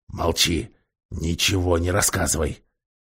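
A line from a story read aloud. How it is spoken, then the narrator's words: Whispered. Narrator (Russian): Дринион прошептал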